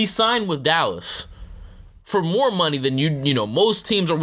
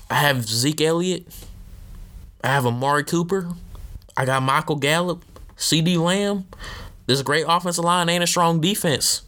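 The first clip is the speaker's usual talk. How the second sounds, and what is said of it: Jerry Jones impression, Southern drawl. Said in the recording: “my Jerry Jones impression. I'm, I do not know if he has a Southern drawl or not.”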